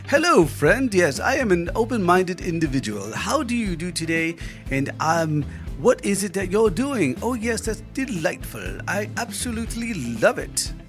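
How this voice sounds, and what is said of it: Put-on affected accent. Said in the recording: “Not with that accent.”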